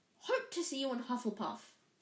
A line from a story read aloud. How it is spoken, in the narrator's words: said the friar